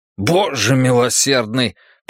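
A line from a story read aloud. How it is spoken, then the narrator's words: Indignant, spitting out food. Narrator (Russian): произнес возмущенно, выплевывая кусок в костер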